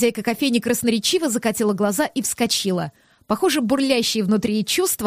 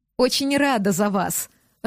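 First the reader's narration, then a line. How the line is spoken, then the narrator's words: Laughing. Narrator (Russian): рассмеялась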